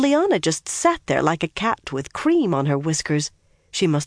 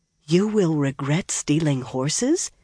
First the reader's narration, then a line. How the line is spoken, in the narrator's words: Min said hoarsely